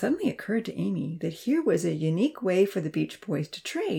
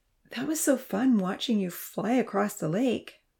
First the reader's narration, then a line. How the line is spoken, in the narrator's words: Vanitha exclaimed shyly